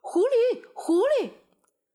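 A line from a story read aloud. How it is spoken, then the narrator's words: Hunters shouting together. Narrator (Chinese): 猎人们的叫喊声响成一片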